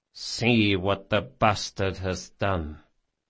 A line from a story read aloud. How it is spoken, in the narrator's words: Barsavi said softly